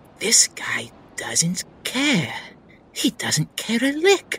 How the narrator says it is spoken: Stir-fry whispers

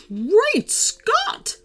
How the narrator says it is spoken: exclaimed

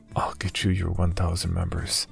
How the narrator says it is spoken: I whispered

